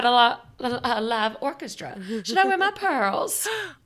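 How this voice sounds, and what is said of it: Put-on Southern accent. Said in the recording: “I got Southern. ... When I start doing a voice”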